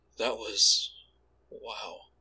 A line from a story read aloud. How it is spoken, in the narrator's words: he murmured dreamily